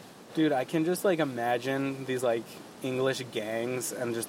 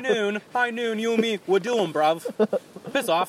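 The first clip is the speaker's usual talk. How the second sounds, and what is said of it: Bad put-on Cockney chav accent. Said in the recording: “God, that's a horrible accent ... Chav ... Like Cockney.”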